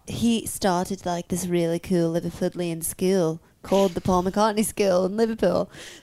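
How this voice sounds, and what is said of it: Imitated Liverpool accent. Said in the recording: “Good is her accent? ... Oh, it's so good. Keep talking in it.”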